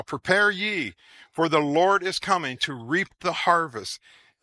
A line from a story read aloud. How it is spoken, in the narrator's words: The second creature cried out